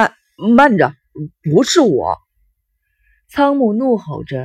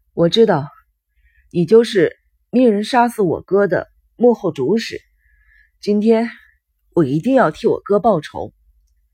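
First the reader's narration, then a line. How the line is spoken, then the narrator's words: Panting. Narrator (Chinese): 新谷喘息着继续说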